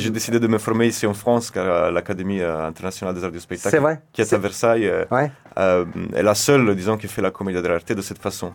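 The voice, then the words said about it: Slight Italian accent in French. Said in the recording (French): “un petit accent ... je suis originaire d'Italie.”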